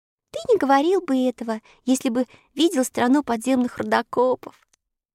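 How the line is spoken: Laughing. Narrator (Russian): Рассмеялась Элли

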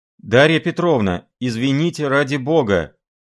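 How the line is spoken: Flustered call after someone. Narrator (Russian): опомнившись, крикнул ей вслед красный Филипп Филиппович

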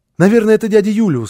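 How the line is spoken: Small child exclaiming. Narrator (Russian): воскликнул малыш

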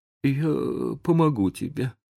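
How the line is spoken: Trembling mutter. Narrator (Russian): пробормотал Том дрожащим голосом

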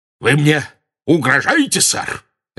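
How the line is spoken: Very loud bark. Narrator (Russian): Рявкнул он так громко

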